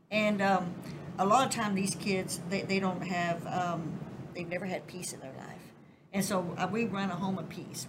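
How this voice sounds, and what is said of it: Southern American accent. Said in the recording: “they get me on my accent ... that Southern hospitality”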